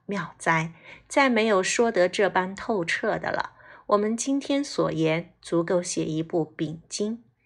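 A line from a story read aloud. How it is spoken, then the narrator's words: Old nun laughing heartily. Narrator (Chinese): 主持师太抚掌大笑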